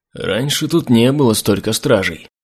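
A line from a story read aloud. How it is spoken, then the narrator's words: Muttered. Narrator (Russian): пробормотал Ирентиль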